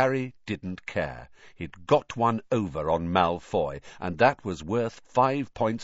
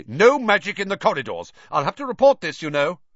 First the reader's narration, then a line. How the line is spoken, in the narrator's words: said Percy loudly